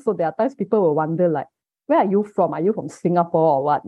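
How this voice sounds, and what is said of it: Malaysian English accent. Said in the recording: “I have a Malaysian accent, like what you hear. Definitely, I have a local accent ... Singapore's accent is pretty similar to mine”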